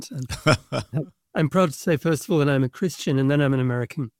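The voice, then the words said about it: Non-American accent. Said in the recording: “my non-American accent ... you'll hear from the way that I speak that I'm not natively American”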